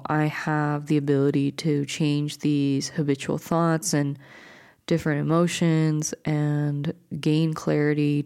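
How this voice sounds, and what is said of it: Soothing voice. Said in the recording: “my voice sounds like this, it's because I'm recording this at a late night, so hopefully this will be a soothing thing”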